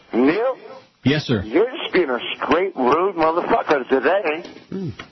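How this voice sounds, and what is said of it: British accent, possibly fake. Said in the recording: “you think he was really a Brit or just a bad accent?”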